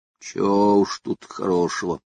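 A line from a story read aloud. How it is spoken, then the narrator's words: Gloomy reply. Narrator (Russian): мрачно отозвался сухой лог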